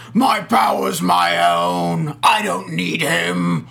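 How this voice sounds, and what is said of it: Performs a character's voice. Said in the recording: “That was my Pandora voice ... That was an amazing impression of Shannon Sauce.”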